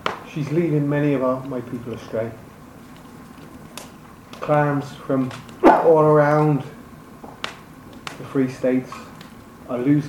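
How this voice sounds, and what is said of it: Irish-accented character voice. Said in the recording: “in the proximity of an Irish accent”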